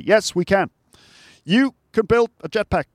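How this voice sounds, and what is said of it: Imitates another person's voice. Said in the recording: “my Barack Obama impression ... That was a Barack Obama impression.”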